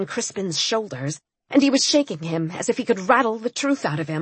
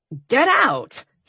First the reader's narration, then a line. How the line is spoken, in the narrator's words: he snapped